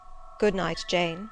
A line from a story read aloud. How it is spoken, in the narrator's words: he replied calmly